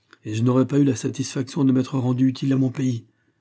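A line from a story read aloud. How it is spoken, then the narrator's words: Pained exclamation. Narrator (French): s'écriait-il avec douleur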